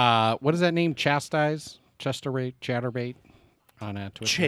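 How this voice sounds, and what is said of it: Usual voice. Nothing is said of it.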